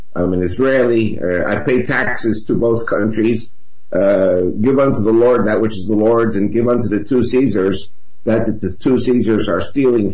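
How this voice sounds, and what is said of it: American accent. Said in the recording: “I have an American accent.”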